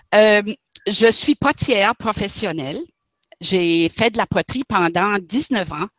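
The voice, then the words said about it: Regional French accent. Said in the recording (French): “tu as un accent magnifique ... quel accent magnifique”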